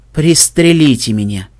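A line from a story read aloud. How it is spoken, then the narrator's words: Moan. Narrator (Russian): простонал Сейд Браш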